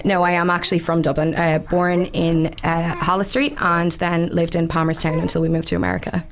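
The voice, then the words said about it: Dublin accent with slight American twang. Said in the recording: “I am from County Dublin ... I have a mixed up accent ... I spent 10 years in America as a kid. So that's why I've got this touch of American twang.”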